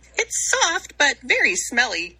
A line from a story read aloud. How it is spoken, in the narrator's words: giggled Bluebell